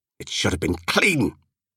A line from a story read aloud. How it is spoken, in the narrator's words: he snapped